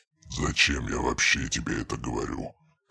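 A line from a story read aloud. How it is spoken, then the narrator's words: Ironic snort. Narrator (Russian): хмыкнул, но в тоне скользнула нотка иронии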